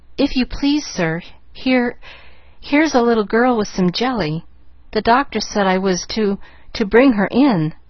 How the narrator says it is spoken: the maid was saying in a frightened voice

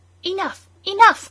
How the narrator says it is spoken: cried some

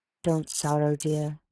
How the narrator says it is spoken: she heard him softly say

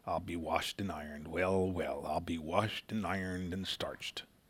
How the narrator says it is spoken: When excited or surprised by anything, he smiled vaguely and muttered

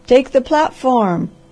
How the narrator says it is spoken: roar from 100 throats

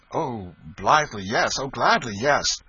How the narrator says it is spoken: exclaimed Tom excitedly

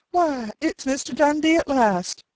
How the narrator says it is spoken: Penny cried

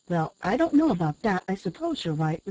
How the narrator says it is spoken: replied Lizette

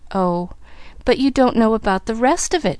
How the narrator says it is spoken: she reminded him, eagerly

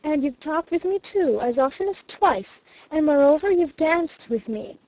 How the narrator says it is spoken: she repeated triumphantly

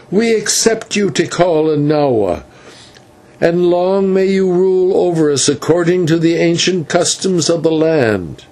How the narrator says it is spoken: the rest cried

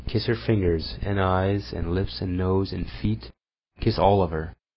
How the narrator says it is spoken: he went on, smiling tenderly

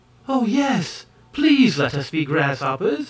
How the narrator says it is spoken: exclaimed the maids in the same breath

